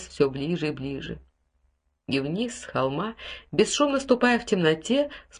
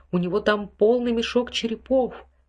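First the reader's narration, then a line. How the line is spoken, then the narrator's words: Sharp cry. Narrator (Russian): вскрикнул Ральф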